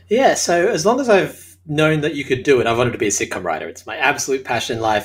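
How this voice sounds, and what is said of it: Australian accent. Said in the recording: “As you can tell from my accent, I'm Australian.”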